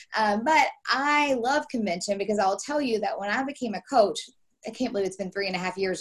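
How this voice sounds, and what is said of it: Hoarse voice. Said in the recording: “my hoarse voice. I have a little bit of a virus going on ... ignore that sound”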